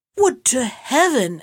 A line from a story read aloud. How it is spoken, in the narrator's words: exclaimed the wife of the vizier